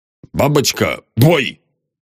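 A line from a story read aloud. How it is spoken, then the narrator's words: Commanding. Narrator (Russian): скомандовал лейтенант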